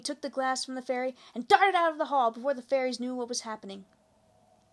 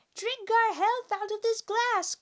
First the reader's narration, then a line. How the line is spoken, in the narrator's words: cried the tiny woman